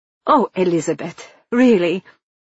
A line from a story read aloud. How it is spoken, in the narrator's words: Marianne snapped